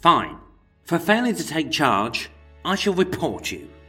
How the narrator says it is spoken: Bristling with rage at the constable's impertinence, George spat

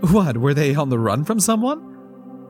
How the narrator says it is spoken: Paula laughed

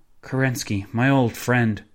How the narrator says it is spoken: the pianist sighed

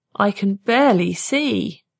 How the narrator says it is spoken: he moaned

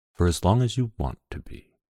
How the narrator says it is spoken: His breath stirred my hair and made me shiver as he whispered

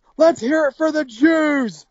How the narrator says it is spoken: he yells

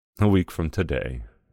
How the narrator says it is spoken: Samuel answered in a wistful voice

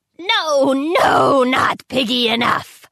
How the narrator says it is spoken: she roared

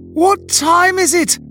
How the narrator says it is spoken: I had bellowed as I frantically beat the metal door

